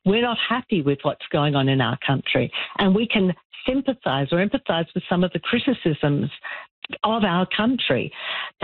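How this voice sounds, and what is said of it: Australian accent. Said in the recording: “as you can hear from my accent, that I'm originally Australian”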